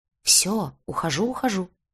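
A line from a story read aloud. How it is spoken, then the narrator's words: Muttering. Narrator (Russian): пробормотал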